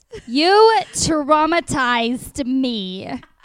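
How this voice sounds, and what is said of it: Jersey accent imitating Sammi Sweetheart. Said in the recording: “Sammy's Sweetheart when she was yelling at Ronnie ... Jersey accent”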